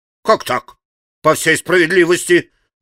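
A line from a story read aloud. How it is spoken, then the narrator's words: Merrier shout. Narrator (Russian): крикнул еще веселее Федор Павлович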